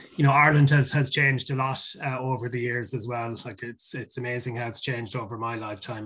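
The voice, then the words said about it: Irish accent. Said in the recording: “people will pick up from my accent that I'm Irish”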